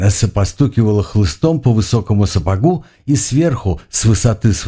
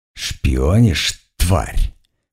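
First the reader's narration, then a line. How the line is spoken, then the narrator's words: Near hiss. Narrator (Russian): почти прошипела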